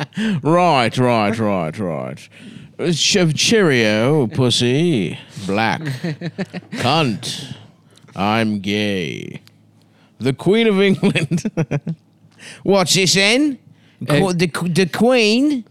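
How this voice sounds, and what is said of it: Bad put-on English accent. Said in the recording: “a man who lives in England ... I love how bad your voice is ... no matter how good you are at an accent, there's always people from the places like, that's not how it sounds at all, bruv ... That's why we're doing the voice, you fucking limey prick”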